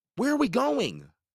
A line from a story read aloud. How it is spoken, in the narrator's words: Simon shouted